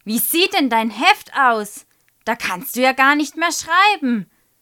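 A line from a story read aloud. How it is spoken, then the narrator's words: Calling out. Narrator (German): ruft Frau Schröder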